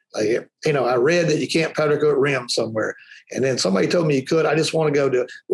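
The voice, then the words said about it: Strong Southern Alabama accent. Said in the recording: “I'm about as Southern as it gets ... I got that whole Alabama accent thing going on ... we talk good Alabama English”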